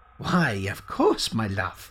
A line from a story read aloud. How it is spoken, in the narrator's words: chuckled the man